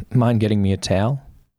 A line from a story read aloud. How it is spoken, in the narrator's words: he asked